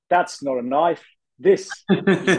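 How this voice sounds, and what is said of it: Attempted Australian accent. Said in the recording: “that was meant to be an Australian accent”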